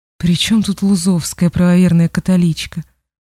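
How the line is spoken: Tired mutter. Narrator (Russian): устало пробормотал Фиксман

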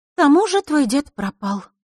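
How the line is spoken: Sighing. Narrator (Russian): вздохнула Лиса

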